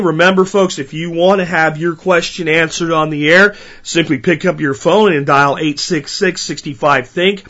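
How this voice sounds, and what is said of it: Strained, hoarse recovering voice. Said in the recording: “my laryngitis... Hope you guys can hear my voice. It's still strained, but it's getting a hell of a lot better.”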